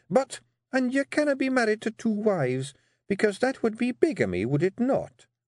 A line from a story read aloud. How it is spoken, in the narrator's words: said Jeanie, her voice dangerously sweet